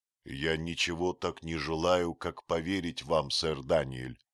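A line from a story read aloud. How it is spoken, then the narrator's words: Plain. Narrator (Russian): сказал он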